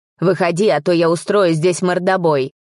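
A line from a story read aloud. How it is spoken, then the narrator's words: Angry shout. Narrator (Russian): Кричит зло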